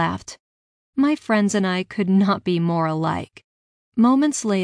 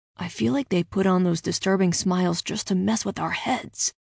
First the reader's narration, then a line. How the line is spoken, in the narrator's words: whispered back